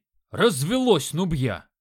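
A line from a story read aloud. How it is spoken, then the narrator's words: Loud bark. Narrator (Russian): Гаркнул бык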